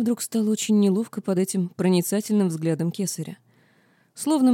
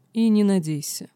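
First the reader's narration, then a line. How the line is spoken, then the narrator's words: Gentle ruler's voice. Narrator (Russian): ласково произнес повелитель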